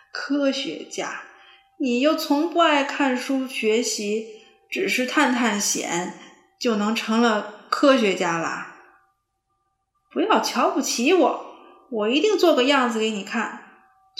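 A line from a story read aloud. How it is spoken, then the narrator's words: Giggling. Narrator (Chinese): 胖胖嘻嘻的笑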